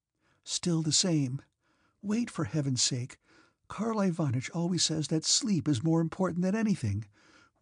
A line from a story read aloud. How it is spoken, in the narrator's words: whispered Princess Mary with a sigh